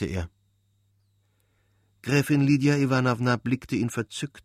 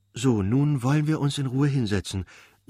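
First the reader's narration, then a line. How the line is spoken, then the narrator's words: Excited, smiling. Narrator (German): sagte Gräfin Lydia Iwanowna … mit erregtem Lächeln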